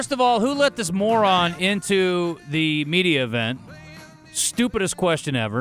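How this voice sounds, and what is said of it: Usual voice. Nothing is said of it.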